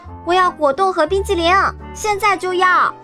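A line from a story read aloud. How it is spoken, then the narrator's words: Shrieking girl. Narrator (Chinese): 金发姑娘尖叫道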